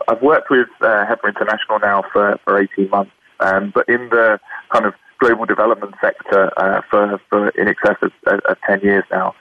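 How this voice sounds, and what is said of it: British accent. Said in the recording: “as you can probably hear from my accent, I'm born and raised in the UK”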